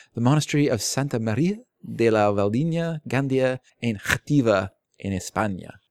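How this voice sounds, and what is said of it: Put-on Spanish accent. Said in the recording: “return that Spanish accent now. I borrowed it.”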